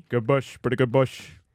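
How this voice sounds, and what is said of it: Imitates another person's voice. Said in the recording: “That's not bad, actually. I think I just did it. How's my De Niro”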